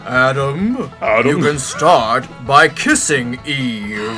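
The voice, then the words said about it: Impression of God's voice. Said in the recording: “this is my God impression”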